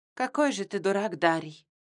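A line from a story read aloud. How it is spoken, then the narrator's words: Tired. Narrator (Russian): устало произнесла я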